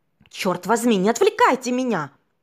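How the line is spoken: Young man's irritated shout. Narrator (Russian): Раздраженно выкрикнул парень

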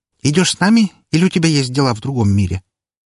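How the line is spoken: Cheerful, smiling. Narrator (Russian): весело улыбнулся

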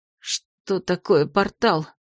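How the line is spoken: Wary mutter. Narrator (Russian): Опасливо пробормотала Терлина

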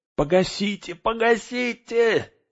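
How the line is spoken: Strange-voiced scream. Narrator (Russian): не своим голосом завопил Мэри

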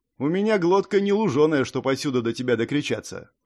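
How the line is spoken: Snorting. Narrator (Russian): хмыкнул Дик

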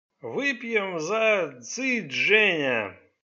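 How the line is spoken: Drunken announcement. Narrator (Russian): Пьяным голосом объявил

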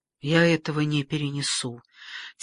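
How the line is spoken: Very quiet whisper. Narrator (Russian): тихо-тихо прошептала Екатерина, чтобы другие не слышали

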